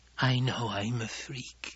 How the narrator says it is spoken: Alia whispered

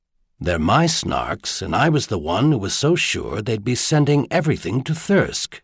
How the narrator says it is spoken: Merlin replied

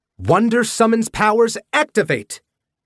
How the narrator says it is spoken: They cried in unison

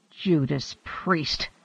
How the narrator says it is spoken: Hanno groaned

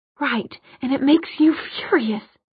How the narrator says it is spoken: whispered

